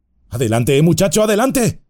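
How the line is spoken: Shouting. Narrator (Spanish): le gritó Sam

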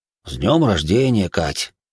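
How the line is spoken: Sighing. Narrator (Russian): вздохнул Боря

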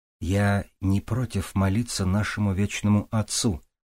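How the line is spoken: Quiet remark. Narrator (Russian): негромко заметил он

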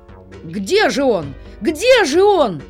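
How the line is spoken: Shouting in chorus. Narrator (Russian): закричали все хором

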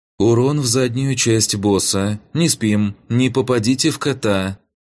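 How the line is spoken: Commanding, normal voice again. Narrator (Russian): скомандовал в канал Амин, своим уже снова ставшим нормальным голосом

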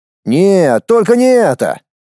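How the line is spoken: Exclaiming. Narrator (Russian): воскликнул Ричард

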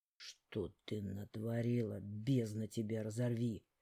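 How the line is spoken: Question through gritted teeth. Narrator (Russian): сквозь зубы спросил он

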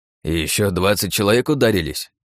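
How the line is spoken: Grumbling healer. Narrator (Russian): проворчал целитель

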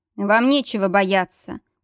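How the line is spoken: Cold remark. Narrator (Russian): холодно заметил он

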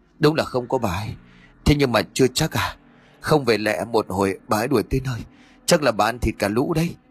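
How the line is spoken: Breathless panting. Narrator (Vietnamese): Nó thở hổn hển rồi nói

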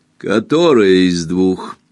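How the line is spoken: Rude, contemptuous question. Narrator (Russian): грубо и презрительно спросила она

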